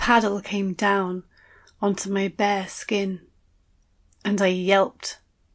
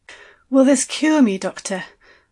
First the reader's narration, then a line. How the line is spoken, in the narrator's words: I asked breathlessly